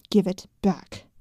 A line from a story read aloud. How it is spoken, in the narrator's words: Helena growled